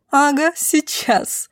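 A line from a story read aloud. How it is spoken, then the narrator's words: Woman's loud laughter. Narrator (Russian): захохотала в голос женщина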